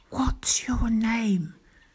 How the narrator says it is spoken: Daisy whispered

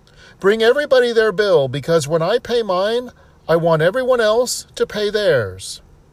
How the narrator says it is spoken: he yells yet again

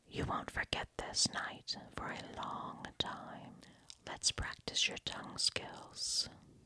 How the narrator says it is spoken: whispered into my ear

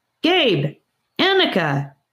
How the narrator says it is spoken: shouted a familiar voice

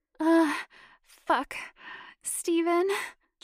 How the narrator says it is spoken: Janet whimpered

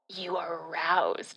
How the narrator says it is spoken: he growled

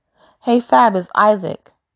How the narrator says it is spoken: Isaac says happily

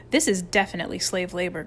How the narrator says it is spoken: grunted Mike

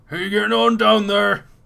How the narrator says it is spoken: Jürgen is shouting down to you

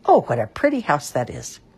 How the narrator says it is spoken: exclaim

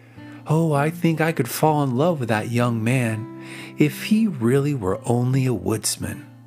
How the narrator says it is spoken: She gave a long sigh and confided to her serving maid

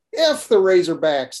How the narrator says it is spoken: laugh and say

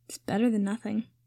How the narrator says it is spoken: Harry said quietly

